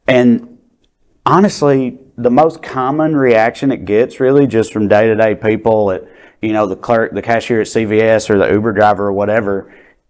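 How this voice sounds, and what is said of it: Deep Southern US accent. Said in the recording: “as deep a Southern accent as you have”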